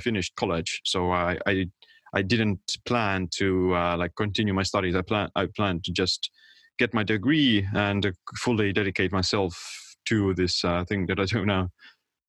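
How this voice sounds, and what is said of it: Estonian accent. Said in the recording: “he has an accent and he's from Estonia ... that's why he has that accent.”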